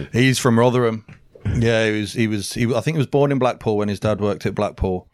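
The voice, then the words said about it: Brummie accent with slight Northern twang. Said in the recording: “you're a Brummie lad ... I am a Brummie lad. I've took his ... slightly ... accent. ... Northern twang”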